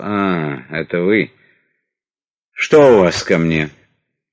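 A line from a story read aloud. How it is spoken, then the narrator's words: Tired sighing minister. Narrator (Russian): Устало вздохнув, министр сказал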